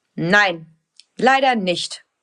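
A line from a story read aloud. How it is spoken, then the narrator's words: Stern father. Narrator (German): sagt ihr Papa, der manchmal ziemlich streng sein kann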